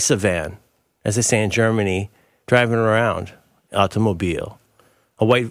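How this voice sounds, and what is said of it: Usual voice. Nothing is said of it.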